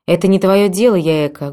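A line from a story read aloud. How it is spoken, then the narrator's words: Rude interrupting mother. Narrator (Russian): грубо оборвала ее мама Масака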